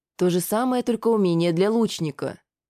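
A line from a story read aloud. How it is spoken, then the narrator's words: Calm. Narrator (Russian): спокойно сказала вернувшаяся Шиза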